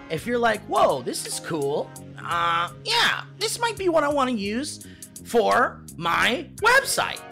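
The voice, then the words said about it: Impression of another person's voice. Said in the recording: “Good Kevin impression.”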